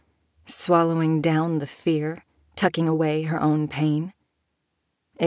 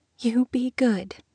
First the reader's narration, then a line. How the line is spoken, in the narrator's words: she said, still in that softly trembling voice